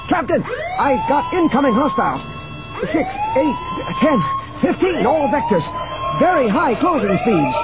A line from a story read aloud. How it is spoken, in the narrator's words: the tactical officer shouted over them